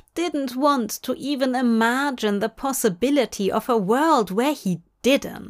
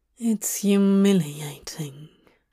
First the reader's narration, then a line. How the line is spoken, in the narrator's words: Dream mumbled bitterly into the pillow